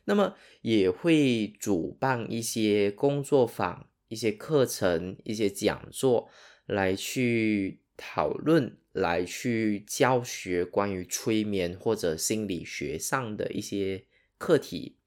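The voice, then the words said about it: Malaysian Sarawak-accented Mandarin. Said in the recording (Chinese): “我的口音可能跟你不一样。那我本身是马来西亚沙劳越人 ... 你一定会发现我的口音，中文口音完全跟你不一样，而且会显得很奇怪，然后好像有”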